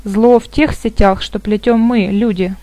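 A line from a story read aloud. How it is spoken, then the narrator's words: Plain. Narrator (Russian): ответил Гет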